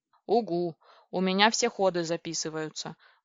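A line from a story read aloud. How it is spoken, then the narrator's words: Grumbled. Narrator (Russian): буркнул Компи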